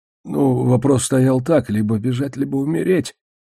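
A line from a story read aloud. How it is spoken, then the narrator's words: Hoarse, confused. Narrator (Russian): прохрипел я, смущенный и сбитый с толку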